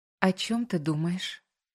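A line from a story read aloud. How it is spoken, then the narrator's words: Quiet question. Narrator (Russian): тихо спрашиваю спустя некоторое время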